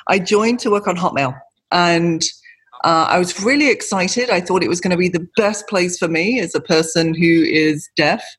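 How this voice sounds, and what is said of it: British accent. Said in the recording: “I'm British, if you can't pick that up from the accent.”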